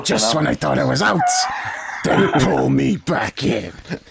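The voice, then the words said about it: Godfather impression. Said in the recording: “don't do your impression again ... Do your impression. I'll do an impression. That's better than Silvio.”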